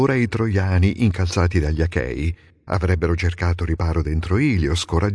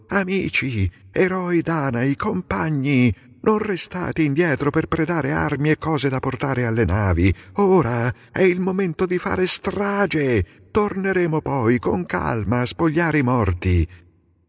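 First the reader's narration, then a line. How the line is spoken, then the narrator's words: Rousing shout. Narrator (Italian): Nestore incitò gli argivi, gridando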